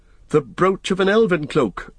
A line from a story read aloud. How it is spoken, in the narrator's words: cried Legolas and Gimli together